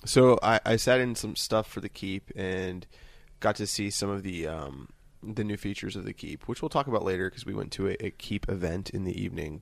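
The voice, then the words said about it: Quiet, sexy morning voice. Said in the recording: “my voice hasn't... I have sexy morning voice... it's the quiet storm”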